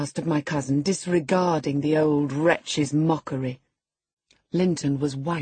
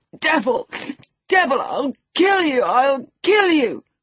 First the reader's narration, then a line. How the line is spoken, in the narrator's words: He rather shrieked than said